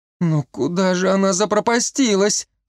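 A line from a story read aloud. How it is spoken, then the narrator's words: Anxious whimpering. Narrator (Russian): Захныкала Марика взволнованно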